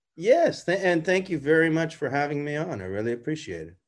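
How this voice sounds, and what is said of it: Canadian accent. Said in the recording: “from your accent, we can tell you're Canadian.”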